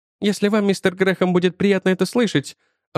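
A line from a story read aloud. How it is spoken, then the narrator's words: Timid. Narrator (Russian): робко добавила доктор Мейбл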